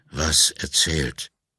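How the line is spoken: Halting, tired old man. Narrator (German): fragte der alte Mann stockend, aber nicht argwöhnisch, sondern müde

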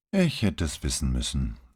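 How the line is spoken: Tired sigh. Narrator (German): versetzte Padovani mit einem müden Seufzer

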